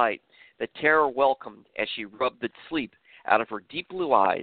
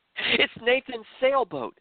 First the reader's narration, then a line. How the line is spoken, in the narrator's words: Tara extremely excitedly exclaimed out loud to herself